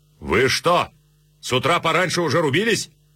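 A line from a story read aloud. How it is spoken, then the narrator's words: Shouted. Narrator (Russian): царь крикнул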